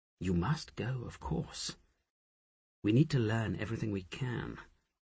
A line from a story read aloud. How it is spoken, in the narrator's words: Asher whispered